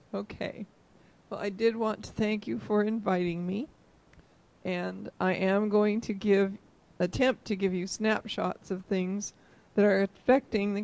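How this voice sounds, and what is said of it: Hoarse, strained voice. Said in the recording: “I am struggling with laryngitis, and we hope we get all the way through before the voice is gone.”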